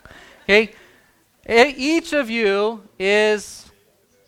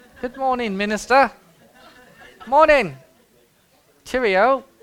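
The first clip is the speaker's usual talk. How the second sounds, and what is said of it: Put-on English accent. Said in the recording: “you got to say it with the English accent.”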